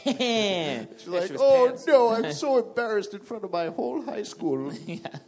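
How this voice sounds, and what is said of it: Wonder Woman impression. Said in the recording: “That's her voice, by the way. ... Great impression.”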